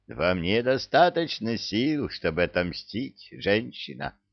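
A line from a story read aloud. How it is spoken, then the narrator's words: Sternly interrupting. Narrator (Russian): строго оборвал ее Синдбад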